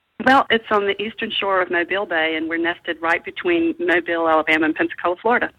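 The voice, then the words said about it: Slight Southern accent. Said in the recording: “slight southern accent”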